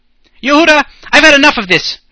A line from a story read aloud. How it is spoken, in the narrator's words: shouted one of the menorahs